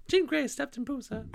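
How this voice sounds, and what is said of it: Imitates Jean Grey's voice. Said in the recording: “My Jean Grey impression is not great. ... Perfect.”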